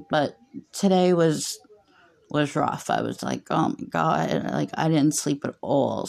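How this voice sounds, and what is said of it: Exhausted-sounding voice. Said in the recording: “I can hear it in my own voice. I just sound exhausted”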